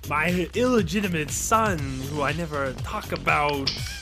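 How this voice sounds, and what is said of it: Poor Christopher Walken impression. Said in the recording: “my terrible Christopher Walken impression.”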